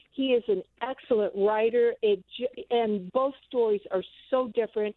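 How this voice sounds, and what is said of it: Talking very fast. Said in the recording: “sorry I'm talking so fast”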